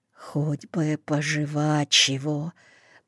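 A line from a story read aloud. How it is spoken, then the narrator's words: Whisper. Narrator (Russian): прошептал Сашкин сосед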